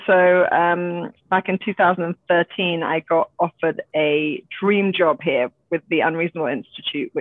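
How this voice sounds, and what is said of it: British accent. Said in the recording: “with the British accent”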